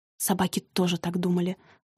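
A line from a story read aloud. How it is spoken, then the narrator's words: Angry, through teeth. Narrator (Russian): зло процедила Кира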